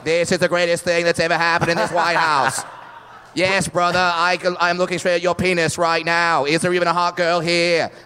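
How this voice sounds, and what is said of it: Kennedy impression. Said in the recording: “I didn't even know I could do a Kennedy impression. ... I didn't know you had that many presidential impressions”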